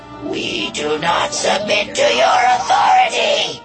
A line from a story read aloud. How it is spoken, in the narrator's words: it screamed